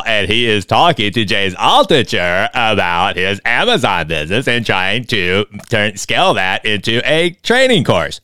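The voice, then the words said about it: Imitates another person's voice. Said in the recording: “I do a fantastic James Kwandall impersonation ... my James Kwandall impersonation ... it's pretty awesome, my impersonation”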